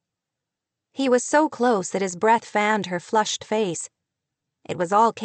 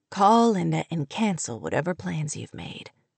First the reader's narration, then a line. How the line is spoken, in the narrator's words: he whispered